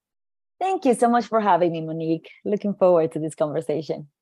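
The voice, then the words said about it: Puerto Rican accent. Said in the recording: “She's a native of Puerto Rico ... Oh, I just love your accent. Ooh, I'm looking forward to the accent too.”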